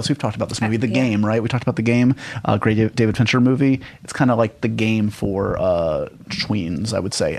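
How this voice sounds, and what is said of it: Very fast talking. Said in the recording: “how fast I'm talking ... they couldn't believe how fast I talk on the show ... You're a New Yorker. You don't have time for slow talking.”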